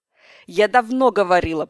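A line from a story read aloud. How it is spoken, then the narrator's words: Fairy continuing. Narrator (Russian): продолжала фея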